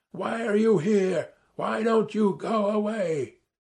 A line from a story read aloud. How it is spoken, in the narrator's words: my shouting